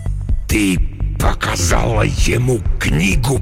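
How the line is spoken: Hissing. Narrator (Russian): прошипел Декарнатус

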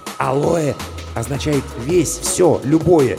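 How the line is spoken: Whispered explanation. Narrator (Russian): шепотом пояснил Мигулис

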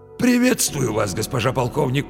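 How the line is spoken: Hoarse wheeze. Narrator (Russian): просипел он

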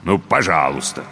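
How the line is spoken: Grumbling stallion. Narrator (Russian): буркнул жеребец

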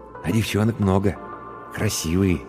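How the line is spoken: Quiet speech. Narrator (Russian): тихо сказал Иван

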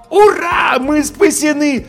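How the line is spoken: Yelled joyfully. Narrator (Russian): завопил я

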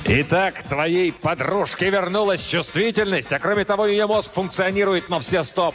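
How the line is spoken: Roaring. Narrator (Russian): проревел Кризераст ужасный

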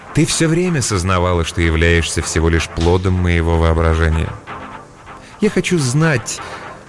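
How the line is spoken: Soft address. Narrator (Russian): мягко обратился он

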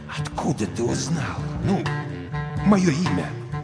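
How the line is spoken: Near whisper. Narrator (Russian): Крейвен почти прошептал

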